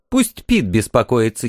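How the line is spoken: Giggling. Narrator (Russian): хихикнула она

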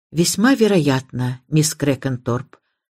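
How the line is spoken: Gentle. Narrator (Russian): мягко ответил Крэдок

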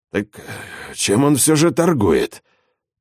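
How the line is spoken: Grumbling. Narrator (Russian): ворчал Эдуардо

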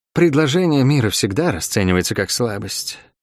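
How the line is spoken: Sighing foreign woman. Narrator (Russian): вздохнула черноволосая чужеземка

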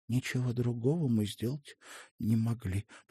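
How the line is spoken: Whispered. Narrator (Russian): прошептала она

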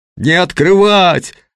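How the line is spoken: Yelled. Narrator (Russian): заорала Светлана Николаевна

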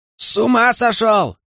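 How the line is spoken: Shout. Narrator (Russian): крикнул Кит

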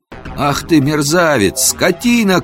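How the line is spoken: Angry shout. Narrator (Russian): крикнул я

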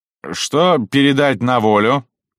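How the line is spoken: Drunken laughter. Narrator (Russian): пьяно засмеялся

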